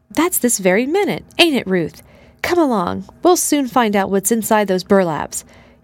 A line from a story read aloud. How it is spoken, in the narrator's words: exclaimed the boy